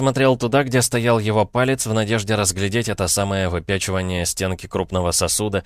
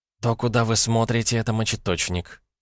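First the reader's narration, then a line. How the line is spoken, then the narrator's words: Quiet female explanation. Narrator (Russian): тихо пояснила женщина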